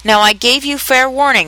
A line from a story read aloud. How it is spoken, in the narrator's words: shouted the Queen, stamping on the ground as she spoke